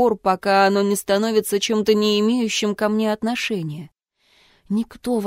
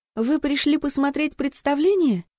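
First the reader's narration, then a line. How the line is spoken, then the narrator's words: Cheerfully obsequious. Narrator (Russian): радостно-подобострастные нотки в своем голосе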